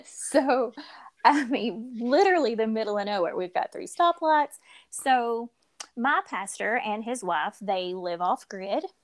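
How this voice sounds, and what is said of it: Kentucky or Tennessee rural accent. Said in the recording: “we're from the middle of nowhere, Kentucky ... Not from the middle of nowhere, Tennessee, if you guys can tell by both of our accents”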